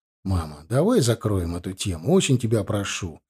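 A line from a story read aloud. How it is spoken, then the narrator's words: Gloomy reply. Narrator (Russian): мрачно ответил я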